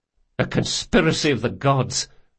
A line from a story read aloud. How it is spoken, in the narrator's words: Locke muttered